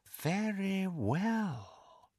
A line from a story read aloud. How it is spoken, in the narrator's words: said, and heard more danger in the silkiness of his voice than in the most powerful curse